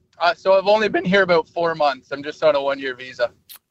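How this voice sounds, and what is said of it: Canadian accent. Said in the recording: “is it a Canadian accent that you've got going on?”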